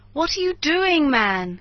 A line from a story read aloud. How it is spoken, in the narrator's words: cried Montgomery